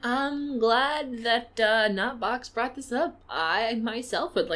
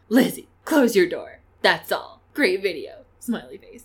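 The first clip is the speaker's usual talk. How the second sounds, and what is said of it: Imitates another person's voice. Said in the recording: “I'll do my best Yolanda impression.”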